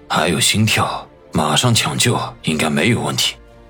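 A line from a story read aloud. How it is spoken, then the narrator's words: Deep low voice. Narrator (Chinese): 沉声的说道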